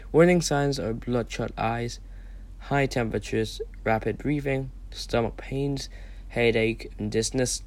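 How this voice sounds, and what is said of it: Unwell, slightly weird-sounding voice. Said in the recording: “I'm sorry if I sound a little weird. I'm still trying to recover as we speak. I may have a little cough or two.”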